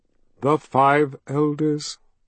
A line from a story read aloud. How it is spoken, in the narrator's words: Richard sighed